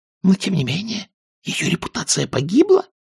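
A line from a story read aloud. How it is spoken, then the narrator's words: Whispered reply. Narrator (Russian): также шепотом ответила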